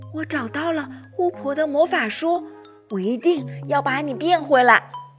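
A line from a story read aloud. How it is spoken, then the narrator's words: Whispering. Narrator (Chinese): 我小声地告诉妈妈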